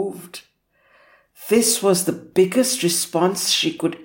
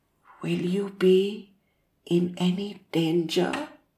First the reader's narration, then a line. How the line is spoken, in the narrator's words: her mother whispered